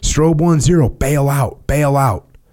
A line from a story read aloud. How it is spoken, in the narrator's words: screamed again